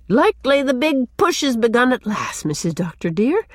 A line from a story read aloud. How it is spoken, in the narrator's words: she exclaimed